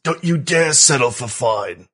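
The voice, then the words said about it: Imitates another person's voice. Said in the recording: “I don't have a good impression for this, but I do have to say in my best Brooke Kent voice”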